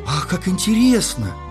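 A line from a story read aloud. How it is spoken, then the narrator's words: Princess exclaiming. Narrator (Russian): воскликнула принцесса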